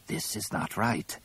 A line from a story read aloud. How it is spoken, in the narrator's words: Tizar rasped quietly